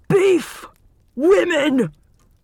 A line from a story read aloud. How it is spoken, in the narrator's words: Hermione cried